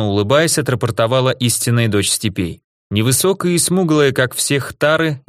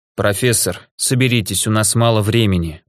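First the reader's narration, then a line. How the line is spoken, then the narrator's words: Weary. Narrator (Russian): устало сказал ученому граф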